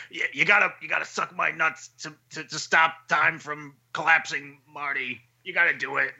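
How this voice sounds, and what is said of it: Impression of Doc from Doc and Marty. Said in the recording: “It's a pretty good impression.”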